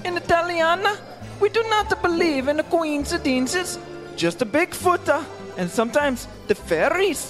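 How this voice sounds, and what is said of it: Fake accent. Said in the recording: “I think that's a fake accent.”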